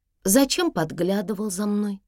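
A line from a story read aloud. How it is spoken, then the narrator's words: Plain question. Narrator (Russian): спросила Урсула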